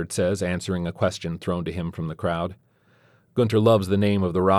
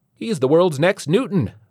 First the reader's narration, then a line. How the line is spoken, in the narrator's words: a tiny-voiced man exclaims